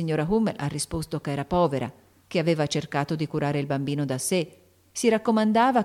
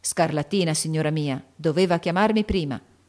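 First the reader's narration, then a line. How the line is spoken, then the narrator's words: Gruff voice. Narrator (Italian): ha detto con voce burbera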